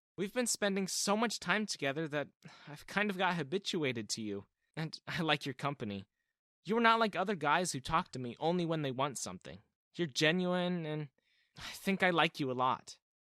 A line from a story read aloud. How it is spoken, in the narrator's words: started nervously